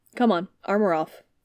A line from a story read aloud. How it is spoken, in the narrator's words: Suture snapped